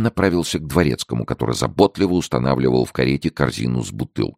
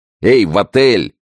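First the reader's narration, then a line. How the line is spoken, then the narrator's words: Commanding shout. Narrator (Russian): крикнул он повелительным голосом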